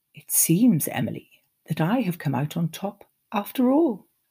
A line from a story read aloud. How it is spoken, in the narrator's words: said, murmuring, but speaking clearly